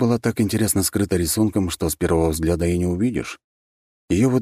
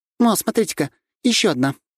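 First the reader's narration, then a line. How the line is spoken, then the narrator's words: Exclaiming. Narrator (Russian): воскликнула Лазарева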